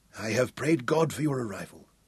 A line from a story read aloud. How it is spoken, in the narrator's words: Hal whispered